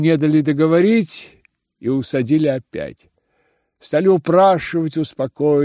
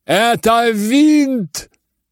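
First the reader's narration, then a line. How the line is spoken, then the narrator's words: Shouting. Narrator (Russian): кричал генерал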